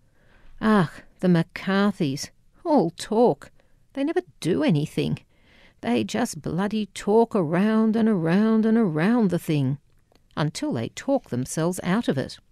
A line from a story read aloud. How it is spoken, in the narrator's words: he would grumble